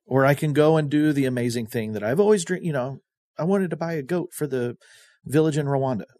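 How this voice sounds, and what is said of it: Sarcastic delivery. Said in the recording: “I'm just being sarcastic.”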